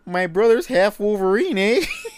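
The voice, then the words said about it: Put-on Canadian accent. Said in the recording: “I'm going to do a Canadian accent ... like the mooses from Brother Bear ... sounded exactly like that”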